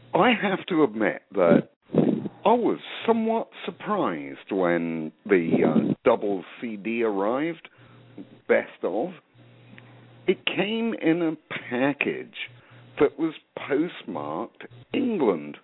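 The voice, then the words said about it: English-influenced accent. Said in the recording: “you obviously can tell that, yeah, from my accent, I spent a few years there, 25 to be exact”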